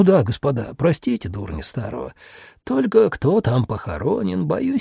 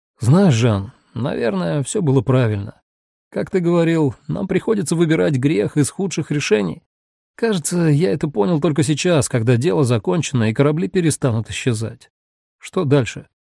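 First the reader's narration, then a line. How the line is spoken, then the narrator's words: Relieved sigh. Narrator (Russian): Декамбре вздохнул с облегчением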